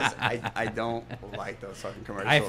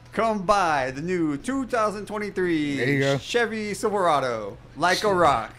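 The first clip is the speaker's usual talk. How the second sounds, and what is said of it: Car dealership commercial voice. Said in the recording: “you sound like a fucking car dealership”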